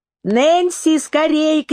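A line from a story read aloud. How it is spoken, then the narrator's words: Shouted. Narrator (Russian): крикнула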